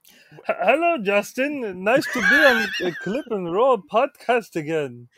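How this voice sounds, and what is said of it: Kermit-style puppet character voice. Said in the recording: “do a Kermit voice ... It sounds like German Oscar the Grouch.”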